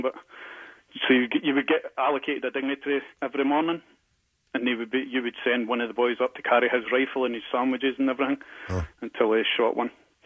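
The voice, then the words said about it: Appealing foreign accent. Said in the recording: “loving your accent ... swooning over the accent”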